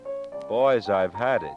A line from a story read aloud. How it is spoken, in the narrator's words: she moaned